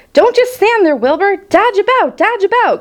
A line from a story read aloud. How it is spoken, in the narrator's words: cried the goose